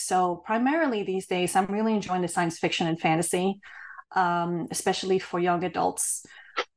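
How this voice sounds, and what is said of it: Hoarse, fading voice. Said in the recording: “I'm totally losing my voice... I actually had a cold during the weekend”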